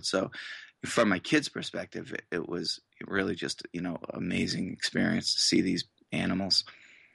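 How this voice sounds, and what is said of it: Massachusetts accent. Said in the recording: “I noticed from your accent that you may not have been born in Boise, Idaho ... I grew up in Massachusetts, as some listeners might be able to tell”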